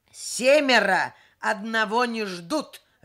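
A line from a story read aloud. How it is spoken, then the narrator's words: Barked, man. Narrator (Russian): рявкнул мужчина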